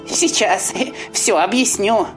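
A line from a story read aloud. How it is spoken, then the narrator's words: Giggling. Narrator (Russian): хихикнула обезьяна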